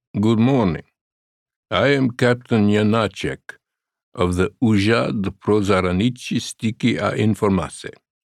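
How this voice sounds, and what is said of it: Heavy Czech accent. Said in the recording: “he said with a heavy Czech accent.”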